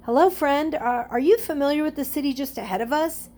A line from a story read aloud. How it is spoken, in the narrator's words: Stephen called out to him